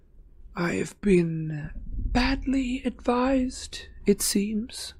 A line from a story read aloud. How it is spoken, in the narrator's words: said Harry, in a high, cold voice that pulsed with anger